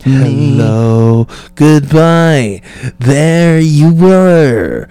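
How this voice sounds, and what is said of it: Creepy, sinister character voice. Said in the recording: “You sounded like a fucking, like, child fucking sexual deviant. It's weird. Like, you sounded like somebody's gonna kidnap somebody.”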